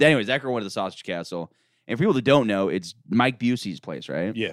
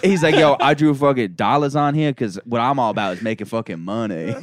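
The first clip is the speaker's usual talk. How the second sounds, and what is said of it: Put-on voice of a classmate. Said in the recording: “I'm doing a voice, but he's a white guy.”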